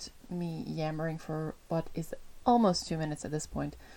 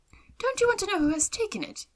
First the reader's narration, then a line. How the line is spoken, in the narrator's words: cried his wife impatiently